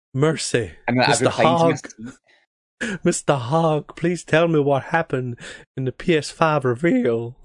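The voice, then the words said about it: Bad put-on Southern US accent. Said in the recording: “That's an awful southern accent”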